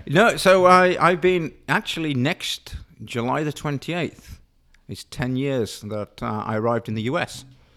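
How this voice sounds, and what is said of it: Australian accent. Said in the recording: “they can tell by your accent that, you know, you're from Australia originally”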